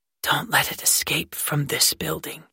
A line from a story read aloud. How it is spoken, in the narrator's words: she whispered